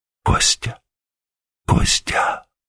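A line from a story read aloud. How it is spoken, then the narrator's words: Whisper. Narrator (Russian): прошептала она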